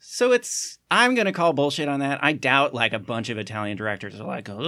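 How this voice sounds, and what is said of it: Usual voice. Nothing is said of it.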